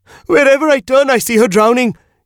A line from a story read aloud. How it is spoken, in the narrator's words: he shrieked